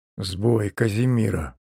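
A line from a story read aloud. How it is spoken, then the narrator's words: Hoarse. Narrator (Russian): хрипло произнес он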